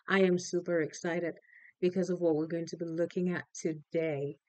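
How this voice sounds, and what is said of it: Excited voice. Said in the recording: “If you can tell by my voice already, I'm saying it.”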